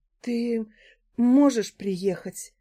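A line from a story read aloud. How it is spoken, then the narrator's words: Breathed into phone. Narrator (Russian): выдохнула она в трубку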